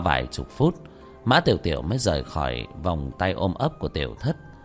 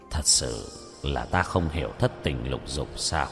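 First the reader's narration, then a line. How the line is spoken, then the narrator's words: Puzzled muttering. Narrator (Vietnamese): Lục Áp Đạo Quân nhíu mày lẩm bẩm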